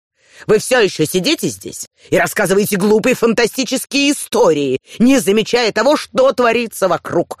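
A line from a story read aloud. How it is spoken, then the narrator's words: Angry shouting. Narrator (Russian): сердито кричал он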